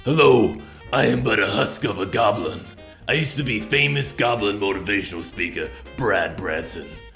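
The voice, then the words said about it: Goblin character voice. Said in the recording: “I'll introduce to him in his actual voice.”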